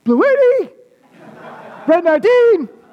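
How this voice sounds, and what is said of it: Quarterback calling a snap cadence. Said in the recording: “impersonating the sound of a quarterback calling for the center to hike him the ball”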